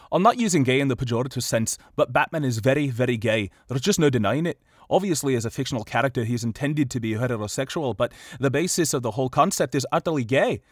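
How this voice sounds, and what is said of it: Put-on Scottish accent. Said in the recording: “hopefully I can recall this Scottish accent I'm doing again”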